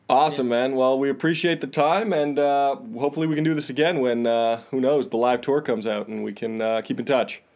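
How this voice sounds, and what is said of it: Canadian accent. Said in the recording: “I can tell the Canadian accent... I heard a few Abuts and Sories in there”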